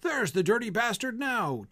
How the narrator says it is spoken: Riot sounds behind you and maybe a shout of

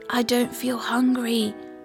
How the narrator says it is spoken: whispered Lemis

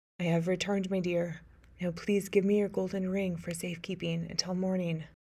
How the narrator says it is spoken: the king said softly

